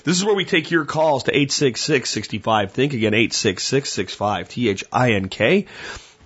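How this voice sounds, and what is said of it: Hoarse, worn-out voice. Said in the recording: “That's about all the voice has. I'm dealing with traveling, speaking, allergies all at the same time. So the voice is a little hoarse”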